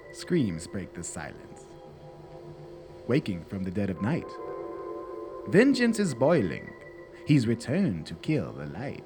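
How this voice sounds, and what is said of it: Creepy spooky horror-movie narrator voice. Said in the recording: “Can I do that in my creepiest Vincent Price voice? You know that guy from all the creepy movies ... Cue creepy voice.”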